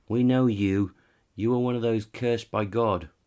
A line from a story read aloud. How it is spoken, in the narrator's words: they shouted back